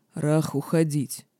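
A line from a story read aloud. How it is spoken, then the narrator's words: Chieftain's growl. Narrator (Russian): прорычал вождь Джашк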